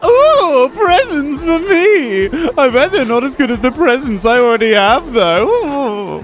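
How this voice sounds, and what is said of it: Comic eunuch character voice. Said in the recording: “do your eunuch voice... How does the eunuch voice go again?”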